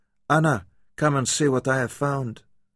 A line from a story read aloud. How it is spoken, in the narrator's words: She called out sharply in a different language